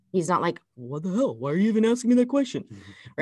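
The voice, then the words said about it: Imitates another person's voice. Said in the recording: “my Scott impression ... how you change your tone like that”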